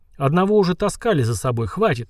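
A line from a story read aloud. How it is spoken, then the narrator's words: Grumbled. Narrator (Russian): проворчал граф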